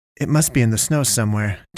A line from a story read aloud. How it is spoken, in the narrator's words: Tyler said